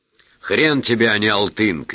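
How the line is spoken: Shout. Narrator (Russian): крикнул Марат

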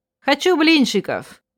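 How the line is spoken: Loud declaration. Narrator (Russian): громко решила

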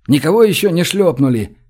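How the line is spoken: Shout. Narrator (Russian): Крикнул Гош

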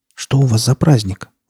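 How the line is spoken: Timid question. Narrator (Russian): робко спросила она таракана

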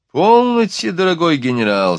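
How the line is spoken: Laughing while speaking. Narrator (Russian): сказал, смеясь

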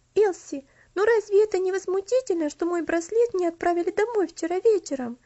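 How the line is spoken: Exclaiming. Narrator (Russian): воскликнула Каролина

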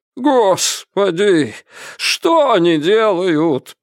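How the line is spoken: Doctor moaning. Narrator (Russian): простонал доктор

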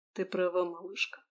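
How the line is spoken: Very soft and gentle. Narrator (Russian): наконец очень тихо и мягко произнес Езаров

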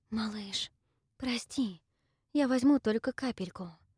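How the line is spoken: Whisper. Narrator (Russian): прошептала я

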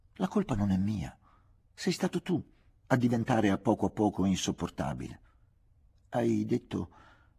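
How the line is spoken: Stammering after pause. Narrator (Italian): balbettai dopo una pausa

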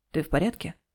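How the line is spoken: Soft gentle question. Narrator (Russian): Сяо Джань спрашивает мягко

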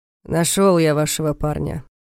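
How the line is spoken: Gloomy, over the phone. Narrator (Russian): мрачно заявил голос Дементьева на другой стороне

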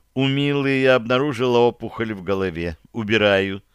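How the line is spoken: Grandmother's calm reply. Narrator (Russian): спокойно ответила бабушка

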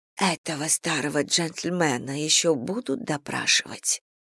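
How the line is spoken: Whispered question. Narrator (Russian): шепотом спросила миссис Бантинг

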